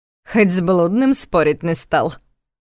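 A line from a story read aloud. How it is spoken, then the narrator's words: Laughing. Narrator (Russian): Карл рассмеялся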